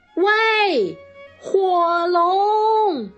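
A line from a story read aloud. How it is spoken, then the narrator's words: Shouting with full force. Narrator (Chinese): 他用尽全身的力气大喊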